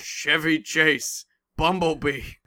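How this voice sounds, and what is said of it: Bad Optimus Prime robot voice impression. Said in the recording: “my terrible Optimus Prime impression”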